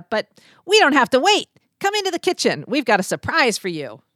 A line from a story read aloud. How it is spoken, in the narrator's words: Sammy piped up